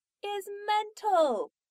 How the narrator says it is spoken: Donna shouted at the door

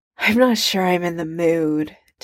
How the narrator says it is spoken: Tony sighs

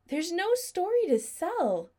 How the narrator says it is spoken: Adam said desperately

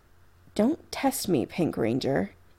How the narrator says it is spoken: he says gravely, voice soft and deadly

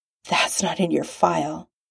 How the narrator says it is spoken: he says hoarsely

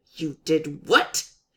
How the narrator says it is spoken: she hisses

